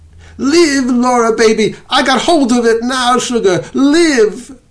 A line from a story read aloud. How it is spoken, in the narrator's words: He screamed at tears streaming down his face